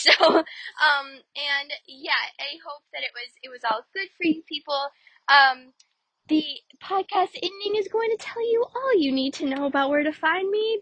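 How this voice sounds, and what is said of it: Slightly raspy voice. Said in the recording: “my voice is a little bit raspy. I have a little bit of a cold.”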